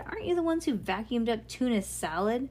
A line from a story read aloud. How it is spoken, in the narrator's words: Bean sighed deeply